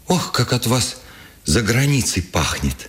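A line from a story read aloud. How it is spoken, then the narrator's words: Joyful. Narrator (Russian): сказал ему Вересова, радостно блестя глазами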